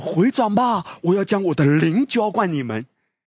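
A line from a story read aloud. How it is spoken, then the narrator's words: Calling out loudly. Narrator (Chinese): 智慧在街市上呼喊，他说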